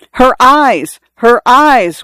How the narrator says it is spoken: one of the students yelled

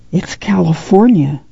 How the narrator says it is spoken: Ruthie whispered

